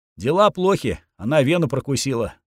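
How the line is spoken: Calm statement. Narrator (Russian): спокойно заявил эльф

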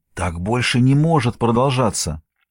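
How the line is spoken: Uncertain whisper. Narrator (Russian): Марк неуверенным голосом шепчет на ухо

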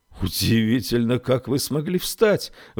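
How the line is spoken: Doctor's exclamation. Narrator (Russian): воскликнул доктор

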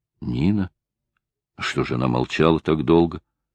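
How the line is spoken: Whispered. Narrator (Russian): прошептал

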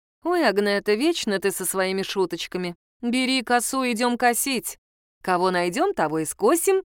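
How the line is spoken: Laughing. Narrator (Russian): рассмеялась

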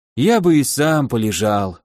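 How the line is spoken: Sighing. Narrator (Russian): вздохнул полковник

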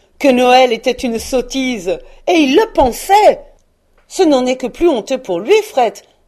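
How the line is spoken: Exclaimed. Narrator (French): s'écria le neveu de Scrooge

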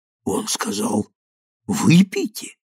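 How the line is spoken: Hoarse mutter. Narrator (Russian): хриплым голосом пробормотал он

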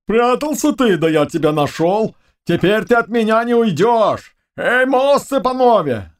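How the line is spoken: Shouting. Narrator (Russian): закричал он своим товарищам

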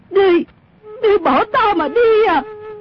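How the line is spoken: Shocked shout. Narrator (Vietnamese): Mụ biến sắc la lên

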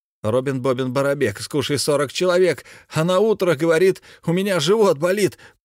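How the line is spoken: Taunting shouted rhyme. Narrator (Russian): прокричал он обидную скороговорку

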